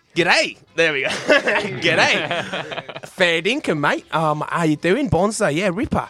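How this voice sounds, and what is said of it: Put-on Australian accent. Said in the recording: “I'm going to start with Australian ... Okay, I'm from Australia now.”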